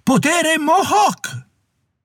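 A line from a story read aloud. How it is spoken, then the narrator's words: Savage yell. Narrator (Italian): Con un grido belluino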